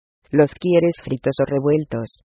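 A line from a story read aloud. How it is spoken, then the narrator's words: Plain question. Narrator (Spanish): preguntó Alice Underwood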